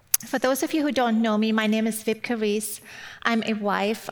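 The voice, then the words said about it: German accent. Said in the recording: “you've probably picked up from my accent already. I'm originally from Germany ... it might take you that long to kind of tune into my accent.”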